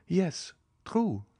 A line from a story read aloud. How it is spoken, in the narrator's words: replied Madame de Villefort, somewhat uneasily